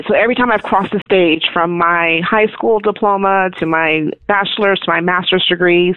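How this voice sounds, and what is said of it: Emotional, choked-up voice. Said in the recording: “I'm sorry, I'm getting emotional.”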